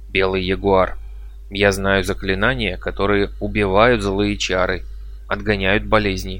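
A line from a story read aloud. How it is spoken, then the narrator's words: Timid speech. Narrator (Russian): Арасиба робко проговорил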